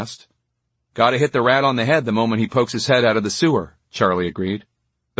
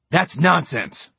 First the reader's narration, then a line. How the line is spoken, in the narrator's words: Winston said angrily